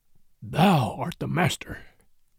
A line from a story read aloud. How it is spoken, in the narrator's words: said Bagheera, in an undertone